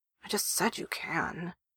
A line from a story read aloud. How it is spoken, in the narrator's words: he mutters